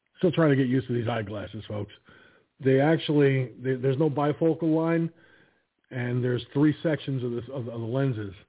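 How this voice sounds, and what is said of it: Tired, strained, failing voice. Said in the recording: “I'm very tired, too, so I think that's another reason why my voice is starting to give away on me here.”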